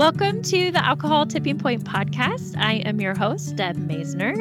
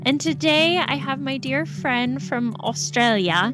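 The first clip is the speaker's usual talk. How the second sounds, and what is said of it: Poor put-on Australian accent. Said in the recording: “That was probably a terrible accent”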